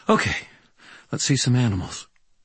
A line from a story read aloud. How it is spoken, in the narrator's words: she sighed, squared her shoulders, and said